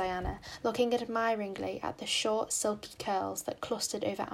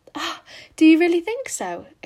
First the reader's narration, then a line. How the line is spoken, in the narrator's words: exclaimed Anne, flushing sensitively with delight